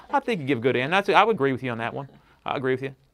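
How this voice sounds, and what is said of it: Imitated Southern accent. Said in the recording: “I got to do his Southern accent.”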